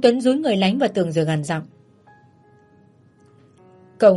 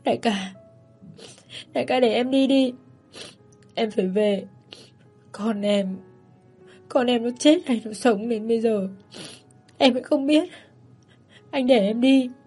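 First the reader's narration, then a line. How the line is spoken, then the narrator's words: Sobbing. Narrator (Vietnamese): Lãnh khóc thút thít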